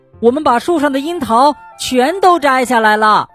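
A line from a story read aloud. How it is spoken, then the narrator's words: Shouting. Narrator (Chinese): 蹦蹦和跳跳喊道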